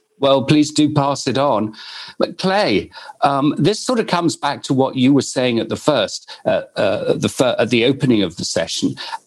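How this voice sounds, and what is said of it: British accent. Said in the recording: “As you can tell from my accent, I'm originally from the United Kingdom”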